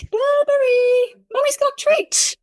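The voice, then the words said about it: Convincing put-on British accent. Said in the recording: “Your British accent is spot on.”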